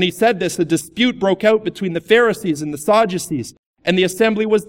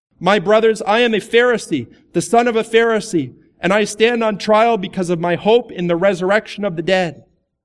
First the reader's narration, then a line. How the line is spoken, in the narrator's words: called out in the Sanhedrin